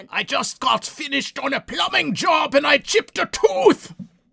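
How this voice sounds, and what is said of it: Put-on German accent. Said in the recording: “Dad's fantastic German accent”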